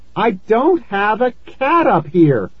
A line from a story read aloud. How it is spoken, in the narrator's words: I cried